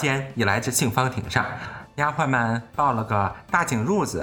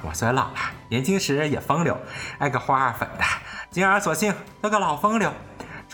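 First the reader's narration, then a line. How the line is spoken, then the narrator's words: Old woman laughing. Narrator (Chinese): 刘姥姥笑道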